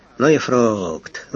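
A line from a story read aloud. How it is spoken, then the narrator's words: Young man's sigh. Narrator (Russian): вздохнул первый экспедитор, молоденький зауряд-прапорщик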